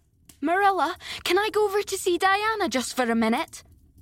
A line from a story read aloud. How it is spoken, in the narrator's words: said Anne, running breathlessly